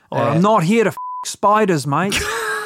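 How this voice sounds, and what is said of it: Put-on Australian accent. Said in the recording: “Listeners will be familiar with our Australian accents ... For Australian accent, what would be your phrase that you go to?”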